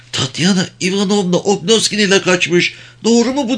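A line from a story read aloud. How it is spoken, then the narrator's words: Fearful trembling voice. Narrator (Turkish): Korku içinde titrek bir sesle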